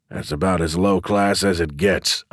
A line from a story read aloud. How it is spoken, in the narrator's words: I grumbled